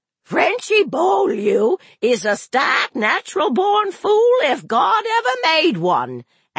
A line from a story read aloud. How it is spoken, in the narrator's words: Aunt Evie hollered